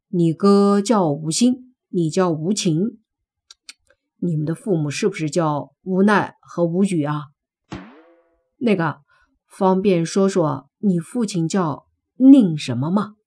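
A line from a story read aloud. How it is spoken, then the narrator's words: Plain question. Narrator (Chinese): 莫凡问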